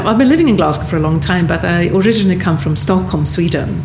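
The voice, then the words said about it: Non-Scottish, Swedish-accented English. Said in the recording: “As you can hear from my dialect, I'm not a born and bred Glaswegian”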